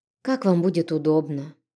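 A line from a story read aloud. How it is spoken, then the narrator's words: Sighing. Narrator (Russian): вздохнув, сказала я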